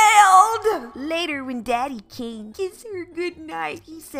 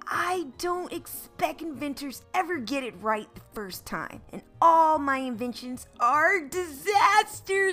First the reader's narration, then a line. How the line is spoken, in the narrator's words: Audrey replied